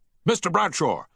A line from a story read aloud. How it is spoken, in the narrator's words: shouted the captain